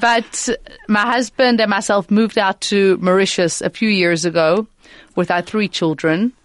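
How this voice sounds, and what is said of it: South African accent. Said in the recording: “I'm originally South African ... From your accent.”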